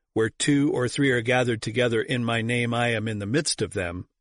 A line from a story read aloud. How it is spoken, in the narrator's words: says